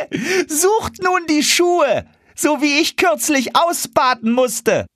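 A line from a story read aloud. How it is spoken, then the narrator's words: Laughing call. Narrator (German): Eulenspiegel lachte und rief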